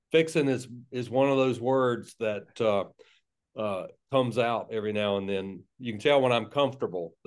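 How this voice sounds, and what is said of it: South Georgia Southern accent. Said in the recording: “that's where the South Georgia accent comes from ... that's where the accent comes from”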